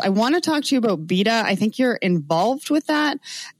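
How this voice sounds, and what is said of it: Canadian accent. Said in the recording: “Probably my Canadian accent”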